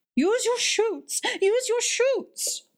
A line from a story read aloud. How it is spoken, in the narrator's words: cried Alderman Boxer